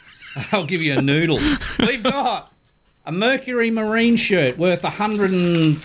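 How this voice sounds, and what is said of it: English accent. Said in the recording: “You and your pommy accent”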